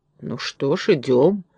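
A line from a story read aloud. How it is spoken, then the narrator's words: Grumbling. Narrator (Russian): проворчал Фарамант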